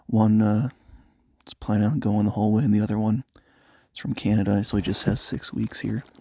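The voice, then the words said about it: Whispering. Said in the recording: “That's also why I'm kind of whispering into the microphone”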